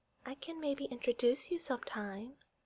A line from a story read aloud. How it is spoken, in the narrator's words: Boo says, and her voice is so soft that the others have to quiet down to hear her